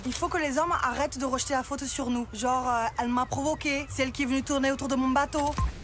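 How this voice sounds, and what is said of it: Southern French accent. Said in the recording (French): “l'accent du Sud”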